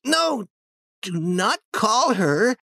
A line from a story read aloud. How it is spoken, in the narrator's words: he cried loudly again